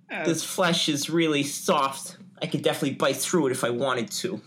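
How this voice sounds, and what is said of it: Daffy Duck character voice. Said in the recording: “doing a different impression ... That's Daffy Duck.”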